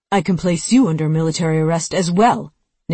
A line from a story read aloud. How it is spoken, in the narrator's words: Nicholson said curtly